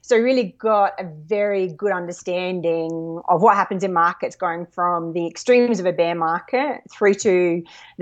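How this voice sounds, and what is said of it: Australian accent. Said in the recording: “probably by the accent everyone can tell, born and educated in Australia”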